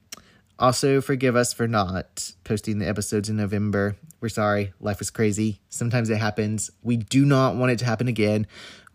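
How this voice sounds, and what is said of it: Strained, failing voice from illness. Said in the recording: “little sick tonight, so please forgive me ... As you can hear, my voice is going.”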